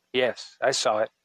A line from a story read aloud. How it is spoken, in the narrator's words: told him quietly